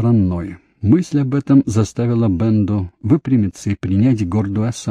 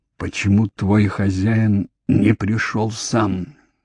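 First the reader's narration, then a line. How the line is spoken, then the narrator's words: Hoarse wheeze. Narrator (Russian): прохрипел Джейми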